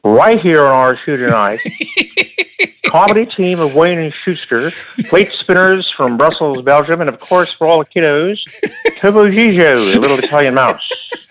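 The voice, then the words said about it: Imitates another person's voice. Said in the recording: “did a great Ed Sullivan impersonation”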